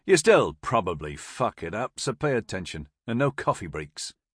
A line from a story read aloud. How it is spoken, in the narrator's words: he grumbled, as he fought to maintain a straight face